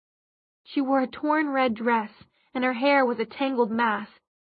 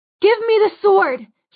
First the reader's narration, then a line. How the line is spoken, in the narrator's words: she cried, her voice almost drowned out by the clang of metal on metal